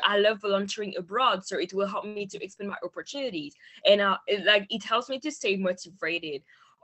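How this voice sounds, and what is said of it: Non-native English accent. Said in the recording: “English is not my first language, maybe you notice with my accent”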